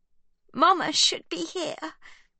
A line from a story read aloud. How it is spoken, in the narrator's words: sobs Livy